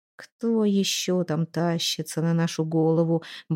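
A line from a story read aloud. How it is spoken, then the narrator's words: Muttering. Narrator (Russian): бормотал он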